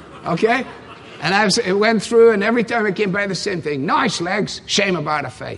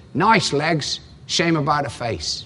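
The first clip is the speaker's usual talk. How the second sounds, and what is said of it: Put-on Cockney accent. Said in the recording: “you have to do it in a Cockney accent”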